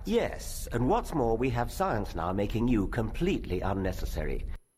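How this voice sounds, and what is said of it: Distinctive accent. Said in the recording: “Richard's got a great accent, right? It's not evolution, it's evolution, or whatever that is, all right? Great accent,”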